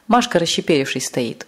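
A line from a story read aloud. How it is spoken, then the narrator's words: Struggling through laughter. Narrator (Russian): с трудом сказал он сквозь смех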